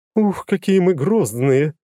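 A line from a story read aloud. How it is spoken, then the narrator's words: Laughing. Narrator (Russian): рассмеялась Лагерта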